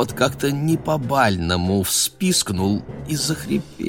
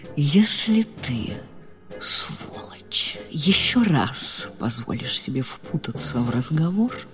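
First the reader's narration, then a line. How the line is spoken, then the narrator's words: Smiling whisper. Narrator (Russian): Маргарита, не переставая улыбаться, зашептала ему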